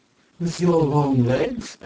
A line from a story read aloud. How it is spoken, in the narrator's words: added the pretty pair of high tie laughingly